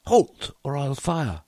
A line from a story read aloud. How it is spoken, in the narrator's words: He cried